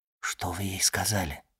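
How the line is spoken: Whispered question. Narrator (Russian): шепотом спросил Морсер

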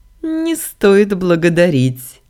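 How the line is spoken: Giggling. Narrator (Russian): хихикнул местный создатель

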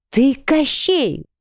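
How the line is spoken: Horrified exclamation. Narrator (Russian): воскликнула в ужасе

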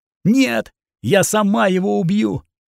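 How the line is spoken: Screaming at full voice. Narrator (Russian): И Катрина закричала во все горло

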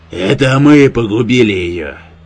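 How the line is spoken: Thundering bass, father. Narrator (Russian): гремел басом отец

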